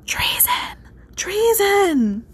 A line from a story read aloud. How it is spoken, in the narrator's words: The servants whispered